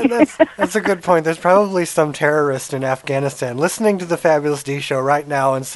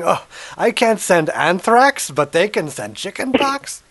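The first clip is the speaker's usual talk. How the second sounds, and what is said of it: Put-on accent, vaguely Russian. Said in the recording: “that was not a terrorist Afghani accent... It was kind of Russian Jew. I don't know what was going on there.”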